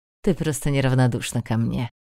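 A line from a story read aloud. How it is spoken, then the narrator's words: Scoffing snort. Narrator (Russian): хмыкнул Кахир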